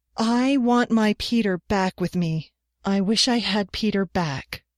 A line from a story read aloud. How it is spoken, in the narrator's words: declaimed in a ringing voice